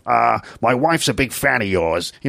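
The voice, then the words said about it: Columbo impression. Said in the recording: “I don't know if that's a good Columbo impression,”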